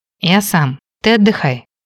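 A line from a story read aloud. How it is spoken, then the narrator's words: Gentle but insistent. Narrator (Russian): мягко, но настойчиво произнес Кейн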